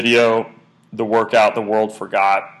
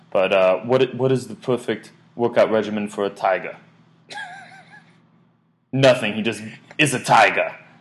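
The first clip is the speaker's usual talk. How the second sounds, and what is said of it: Poor put-on French accent. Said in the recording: “I'm going to try to do my French accent, this is terrible”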